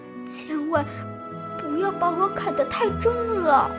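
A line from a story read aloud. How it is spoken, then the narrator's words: Tiny pleading voice. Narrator (Chinese): 一个很细很细的声音，这声音在央求他说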